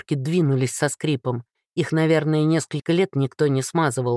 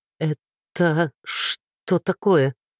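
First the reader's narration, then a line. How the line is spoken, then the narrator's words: Stammering guard's mutter. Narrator (Russian): заикаясь, пробормотал один из стражников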